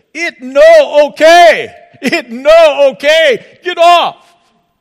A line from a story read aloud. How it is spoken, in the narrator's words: he shouted at them in his broken English